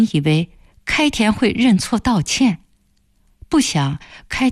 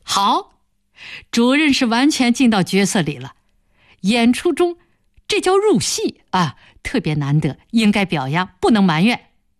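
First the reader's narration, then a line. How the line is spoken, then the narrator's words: Laughing. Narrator (Chinese): 薛传心闻言笑了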